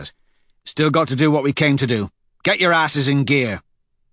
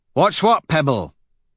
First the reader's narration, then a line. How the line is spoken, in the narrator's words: He asks impatiently